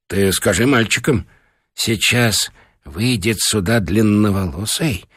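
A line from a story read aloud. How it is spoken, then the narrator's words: Whisper. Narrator (Russian): зашептал Михаил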